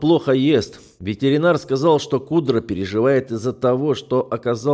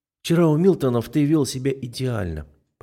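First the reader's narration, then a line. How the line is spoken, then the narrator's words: Said with a sigh. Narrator (Russian): произнесла, вздохнув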